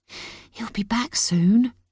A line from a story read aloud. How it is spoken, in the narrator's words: he whispers